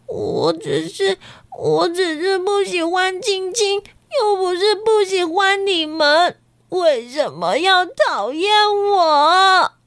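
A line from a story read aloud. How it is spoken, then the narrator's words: Crying. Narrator (Chinese): 瑞希呀，一边哭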